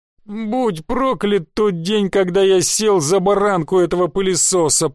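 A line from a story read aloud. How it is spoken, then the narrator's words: Groaning lament. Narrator (Russian): простонала Наташа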